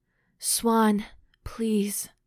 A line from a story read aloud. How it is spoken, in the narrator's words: she gasped finally, desperately against the warm column of his neck